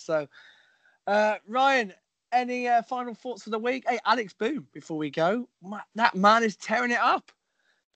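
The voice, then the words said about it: Strained, failing voice. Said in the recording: “my voice feels like it's about to go again”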